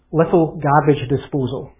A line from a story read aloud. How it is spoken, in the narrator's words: he said